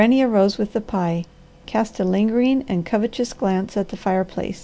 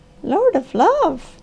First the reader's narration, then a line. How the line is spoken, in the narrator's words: she gasped